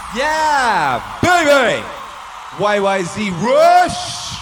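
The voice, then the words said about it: Hyped-up exaggerated voice. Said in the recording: “Why am I doing that voice? Because it's hype!”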